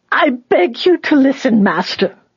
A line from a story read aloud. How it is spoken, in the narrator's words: the old woman cried out in a desperate screech